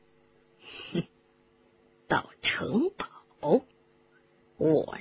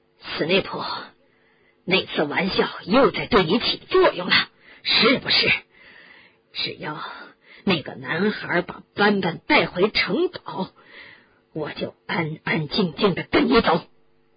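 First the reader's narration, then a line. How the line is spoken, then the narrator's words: Loud. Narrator (Chinese): 布莱特大声地说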